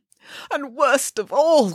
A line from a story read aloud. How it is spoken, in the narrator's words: sobbed Nanny Pickens